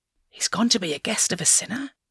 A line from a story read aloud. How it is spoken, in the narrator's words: All the people began to mutter